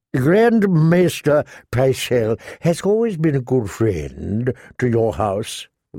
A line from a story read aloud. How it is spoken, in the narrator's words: Varys said sweetly